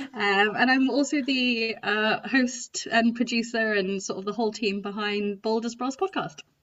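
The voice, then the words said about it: English Midlands accent. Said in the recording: “based in the Midlands of the UK. My accent might have been a bit of a giveaway”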